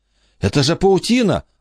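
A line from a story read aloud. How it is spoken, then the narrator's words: Exclaimed. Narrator (Russian): воскликнула Эмма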